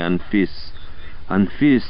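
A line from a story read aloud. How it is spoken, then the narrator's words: Hoarse drunken mutter. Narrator (Russian): пробормотал он хрипло и пьяно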